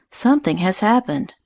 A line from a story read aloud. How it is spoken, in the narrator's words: she said to Louise in a troubled voice